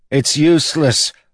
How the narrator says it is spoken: one of the lads cried

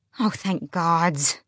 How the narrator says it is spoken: Luca moaned

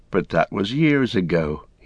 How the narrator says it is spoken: he sighed

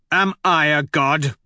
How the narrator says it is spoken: I snarl

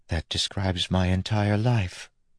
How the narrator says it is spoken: Steris said softly

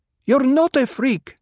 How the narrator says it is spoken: Hera snapped

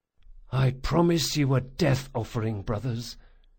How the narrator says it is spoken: Locke whispered

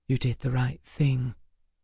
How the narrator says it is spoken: Emma whispered in my ear

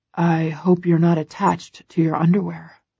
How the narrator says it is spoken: he murmurs, his eyes wild and bright

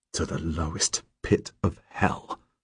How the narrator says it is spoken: I mutter

